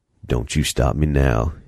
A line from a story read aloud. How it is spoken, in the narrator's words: muttered